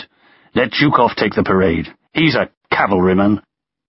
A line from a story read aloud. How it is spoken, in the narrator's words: he spat